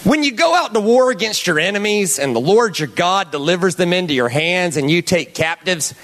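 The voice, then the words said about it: Put-on Southern US accent. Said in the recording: “I'm going to read this in a southern accent, because I think it just makes it better.”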